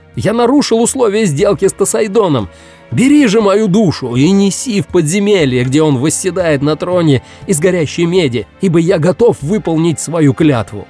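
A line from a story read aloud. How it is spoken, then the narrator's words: Desperate shout. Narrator (Russian): в отчаянии он закричал посланнику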